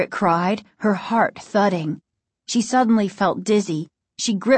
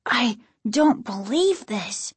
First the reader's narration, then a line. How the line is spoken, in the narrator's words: Casey said quietly, his voice trembling